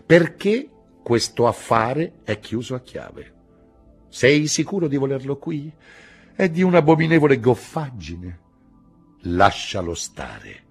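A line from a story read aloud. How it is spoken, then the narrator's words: Practical, unflirtatious tone. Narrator (Italian): disse in tono pratico, senza civetteria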